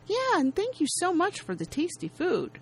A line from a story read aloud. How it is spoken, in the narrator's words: Mark, completely oblivious, happily says